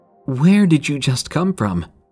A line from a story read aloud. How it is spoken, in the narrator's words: asked, his voice shaking a bit